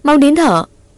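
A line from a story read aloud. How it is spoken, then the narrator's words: Loud shout. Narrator (Vietnamese): Ngọc hét lớn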